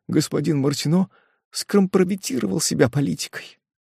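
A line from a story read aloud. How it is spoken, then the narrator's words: Timid babbling. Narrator (Russian): пролепетала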